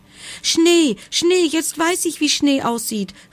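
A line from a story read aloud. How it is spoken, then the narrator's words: Joyful exclamation. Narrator (German): rief der Igel, und vor lauter Freude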